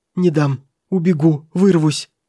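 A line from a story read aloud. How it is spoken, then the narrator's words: Terrified babbling young man. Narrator (Russian): лепетал в ужасе молодой человек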